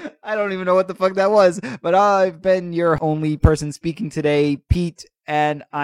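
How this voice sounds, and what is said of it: Usual voice. Nothing is said of it.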